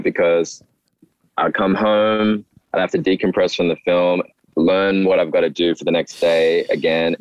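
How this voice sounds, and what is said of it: Australian accent. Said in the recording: “it's weird to hear you have an Australian accent”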